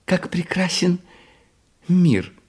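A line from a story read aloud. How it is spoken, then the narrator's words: Little jester girl exclaiming. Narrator (Russian): воскликнула маленькая шутиха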